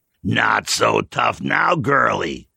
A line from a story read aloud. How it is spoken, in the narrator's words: he snarled